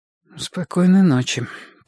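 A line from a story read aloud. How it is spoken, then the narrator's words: Stifled, choked. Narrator (Russian): произнесла она придушенным тоном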